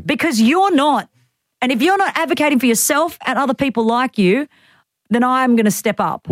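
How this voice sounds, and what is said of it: Angry yelling voice. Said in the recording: “Why are you yelling? ... I got really angry about this. ... Don't yell at us.”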